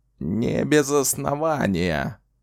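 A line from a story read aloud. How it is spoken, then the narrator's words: Grumbling while walking. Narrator (Russian): проворчал он на ходу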